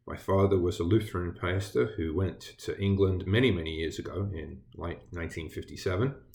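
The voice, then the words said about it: British English accent. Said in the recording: “I was born and raised over in Britain ... where my accent comes from”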